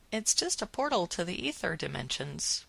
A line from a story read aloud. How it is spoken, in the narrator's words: Willow said